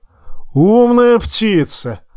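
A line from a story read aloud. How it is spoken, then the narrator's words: Loud laughter. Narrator (Russian): расхохотался Тормунд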